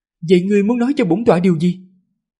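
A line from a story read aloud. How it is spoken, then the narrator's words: Nervous, trembling voice. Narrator (Vietnamese): Hắc y chấp sự càng thêm khẩn trương, thanh âm run rẩy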